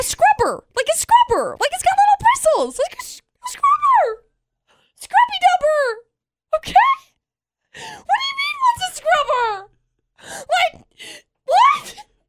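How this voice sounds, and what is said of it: Very high-pitched excited voice. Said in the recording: “The higher pitch your voice gets ... 2 octaves higher than her normal speaking voice”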